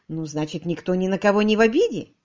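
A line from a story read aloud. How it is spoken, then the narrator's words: Soft. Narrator (Russian): мягко сказал Томас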